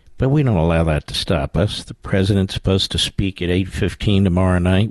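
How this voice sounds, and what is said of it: Hoarse, raspy voice. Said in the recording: “Sound like Carol Channing, don't I ... I've got a little cold, as you can hear.”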